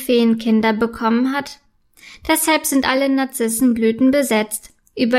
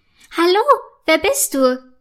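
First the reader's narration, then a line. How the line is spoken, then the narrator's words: Excited question. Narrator (German): fragt aufgeregt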